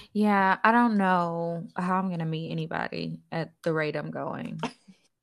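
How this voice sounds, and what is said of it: Sad, down-sounding voice. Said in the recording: “You sounded a little down, friend. You sounded a little down.”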